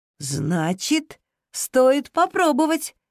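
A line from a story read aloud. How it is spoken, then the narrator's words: Exclaimed. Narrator (Russian): воскликнула Зира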